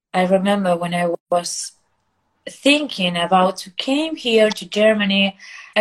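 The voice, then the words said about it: Spanish-accented English. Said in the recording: “my English accent, because I'm Spanish speaker ... it's my own accent”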